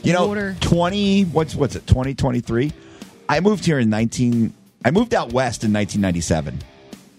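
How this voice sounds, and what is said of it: New Jersey accent. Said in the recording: “God, you are from Jersey ... I've never lost my accent. I only lived in New Jersey for 18 years. I've never lost my accent.”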